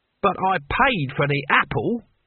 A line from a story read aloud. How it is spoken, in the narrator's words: said Cohen, rather testily